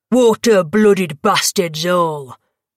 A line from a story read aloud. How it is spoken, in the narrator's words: the Dragan spat